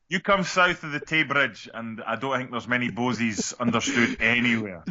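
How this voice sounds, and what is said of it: Exaggerated pretend Scottish accent. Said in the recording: “sounded like Mel Gibson in Braveheart for a moment there ... your accent turned into pretend Scottish”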